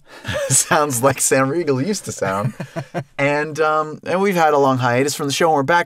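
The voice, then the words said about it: Congested voice from a cold. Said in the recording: “I have a cold, so I sound a little funky.”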